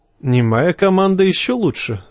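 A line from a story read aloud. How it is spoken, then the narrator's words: Laughing. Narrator (Russian): засмеялся лесинеец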